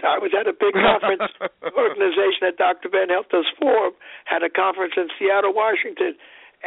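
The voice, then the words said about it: Hoarse, strained voice. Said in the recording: “I've lost my voice.”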